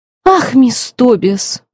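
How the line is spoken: Exclaiming. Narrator (Russian): воскликнула Кассандра

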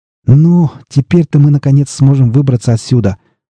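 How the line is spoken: Joyful exclamation. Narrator (Russian): Радостно воскликнул Хопра

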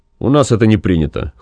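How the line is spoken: Cold. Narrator (Russian): холодно сказал бригадир

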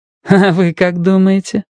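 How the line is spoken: Laughing. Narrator (Russian): засмеялась Урсула

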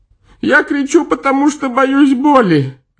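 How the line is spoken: Sobbing. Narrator (Russian): рыдая, сказал привязанный

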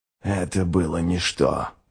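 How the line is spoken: Grumbled. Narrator (Russian): проворчал ничто

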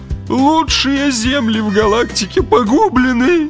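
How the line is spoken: Grieving groan, huge man. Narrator (Russian): горестно простонал клиент, верзила 7 футов ростом

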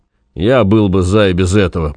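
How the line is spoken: Grumbling man. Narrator (Russian): проворчал доктор

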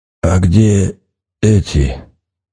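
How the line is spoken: Hoarse wheeze. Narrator (Russian): просипел мужчина

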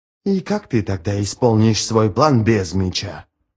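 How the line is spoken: Mutter. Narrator (Russian): пробормотала Сумаэль

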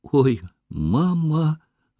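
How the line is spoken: Hesitant moan. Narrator (Russian): осмелилась, наконец, простонать Катюша

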